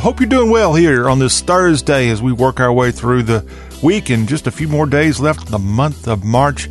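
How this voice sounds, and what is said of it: Southern American accent. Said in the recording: “yes, we have a Southern accent, and we have no shame in that”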